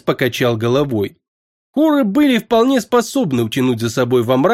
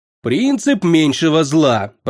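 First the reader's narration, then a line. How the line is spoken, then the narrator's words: Grumbling reply. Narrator (Russian): проворчал в ответ темный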